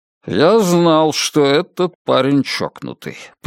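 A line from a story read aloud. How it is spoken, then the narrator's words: Grumbling under breath. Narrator (Russian): пробурчал себе под нос Мальоре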